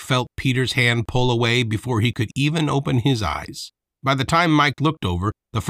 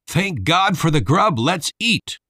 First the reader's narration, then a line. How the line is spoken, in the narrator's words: everyone shouted together